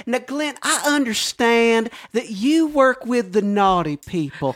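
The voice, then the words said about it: Put-on Southern preacher accent. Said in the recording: “Where is this accent from? ... Is there a secret Carolina I don't know about?”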